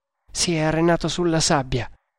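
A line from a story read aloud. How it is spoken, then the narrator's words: Plain. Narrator (Italian): rispose Agur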